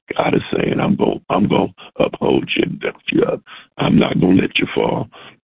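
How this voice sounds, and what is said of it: Hoarse, strained, nearly lost voice. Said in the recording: “Excuse my voice, it's gone.”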